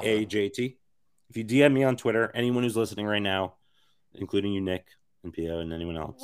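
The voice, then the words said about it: Raspy, worn-out voice. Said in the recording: “my raspy dying voice”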